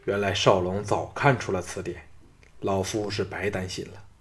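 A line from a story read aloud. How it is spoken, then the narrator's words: Shaken, deep voice. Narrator (Chinese): 邹衍身子巨震，往他望来，沉声说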